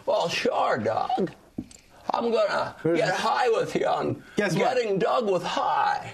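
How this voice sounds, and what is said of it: Jimmy Stewart impression. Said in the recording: “And just in a second, Jimmy Stewart ... kids don't like that impression”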